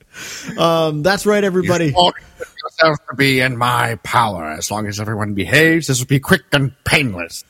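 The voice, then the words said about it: Gravelly villain character voice. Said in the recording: “Can I hear some Cad Bane?”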